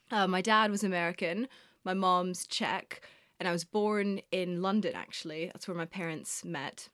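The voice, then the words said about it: Mixed, non-British-sounding accent. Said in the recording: “my strange accent as well. I don't sound British.”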